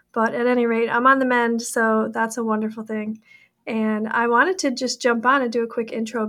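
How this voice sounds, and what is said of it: Raspy, hoarse voice. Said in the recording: “I have a bit of a cold today, so I hope you'll forgive my raspy voice”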